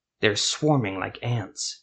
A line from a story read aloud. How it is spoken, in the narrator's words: he muttered to Silva